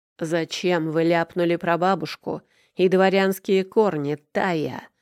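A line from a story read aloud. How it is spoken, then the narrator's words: Boss growling. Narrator (Russian): прорычал босс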